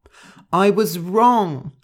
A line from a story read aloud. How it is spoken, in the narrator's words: shouted Gentle